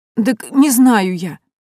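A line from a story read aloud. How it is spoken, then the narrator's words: Sobbing, pleading young woman. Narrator (Russian): схлипнула девушка и взмолилась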